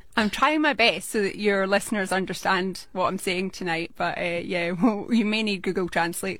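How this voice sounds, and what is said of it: Scottish Glaswegian accent. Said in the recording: “That's a Scottish accent, isn't it? ... It is indeed a Glaswegian accent.”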